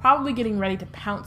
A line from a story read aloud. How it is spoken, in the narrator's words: said Ron